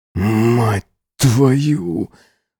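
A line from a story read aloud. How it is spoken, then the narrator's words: Breathless ecstatic mutter. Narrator (Russian): Задыхаясь, пробормотал я, сотрясаемый бьющимся во мне оргазмом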